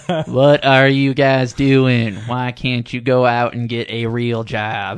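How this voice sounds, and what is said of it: Cartoon character voice. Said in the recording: “in a Boomhauer voice ... That's close. That's not Boomhauer.”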